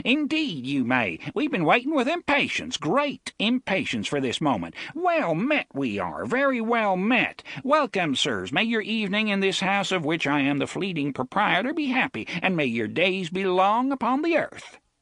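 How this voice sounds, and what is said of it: Strong, high-pitched character voice. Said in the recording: “he cried in a strong, high voice.”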